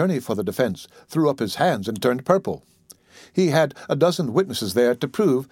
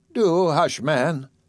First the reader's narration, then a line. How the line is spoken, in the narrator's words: Sis Dicey exclaimed